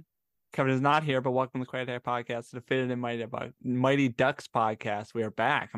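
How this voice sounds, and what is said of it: Talking very fast, excited. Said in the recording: “I'm talking too fast”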